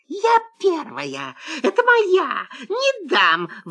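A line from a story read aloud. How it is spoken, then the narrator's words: Sudden fox squeal. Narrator (Russian): вдруг взвизгнула лиса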